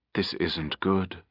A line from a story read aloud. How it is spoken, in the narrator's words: she said softly